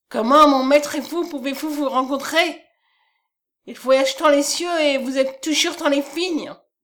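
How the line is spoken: Indignant exclamation. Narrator (French): s'écria Colm indigné

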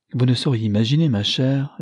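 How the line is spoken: Cheerful. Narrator (French): dit gaiement Lionel à sa femme

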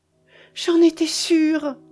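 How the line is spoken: Exclaiming. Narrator (French): s'écria-t-elle

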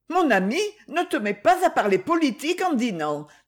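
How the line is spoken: Alarmed woman exclaiming. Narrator (French): s'écria sa femme alarmée

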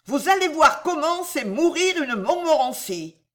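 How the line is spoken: Shouting. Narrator (French): criait-elle

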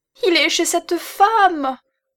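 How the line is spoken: Shouted. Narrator (French): cria la pauvre Hortense

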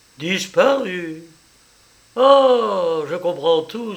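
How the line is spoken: Exclamation. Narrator (French): s'écria Jean

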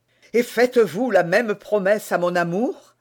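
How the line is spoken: Overjoyed exclamation. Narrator (French): s'écria D'Artagnan au comble de la joie

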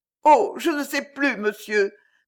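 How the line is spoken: Stammered. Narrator (French): balbutia Mme Auriol, à qui cette histoire venait d'apparaître sans intérêt à côté de la santé de sa fille

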